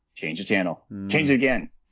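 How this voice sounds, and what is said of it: Impression of Falcon. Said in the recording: “you do a great Falcon impersonation”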